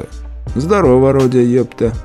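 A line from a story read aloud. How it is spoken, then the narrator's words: Calm, not aggressive. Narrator (Russian): Говорю спокойно так, не быкую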